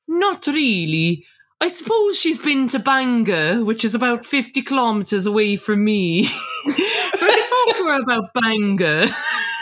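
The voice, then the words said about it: Good put-on Welsh accent. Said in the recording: “your Welsh accent is just like outranks mine to no end. It's so good.”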